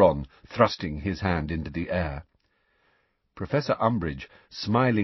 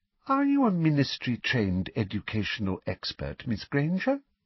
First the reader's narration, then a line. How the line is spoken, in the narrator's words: asked Professor Umbridge in her falsely sweet voice